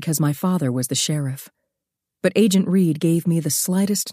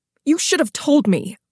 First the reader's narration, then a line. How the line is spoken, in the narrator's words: Ellen snapped